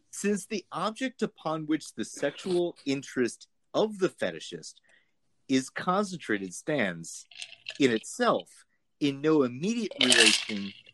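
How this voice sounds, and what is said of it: Terrible exaggerated German accent. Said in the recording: “Too German, huh? ... I know it's a terrible accent.”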